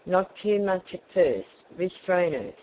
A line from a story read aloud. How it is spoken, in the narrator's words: said the brother